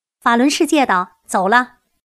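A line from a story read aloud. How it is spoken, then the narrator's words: Loud shout. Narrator (Chinese): 师傅大声喊起来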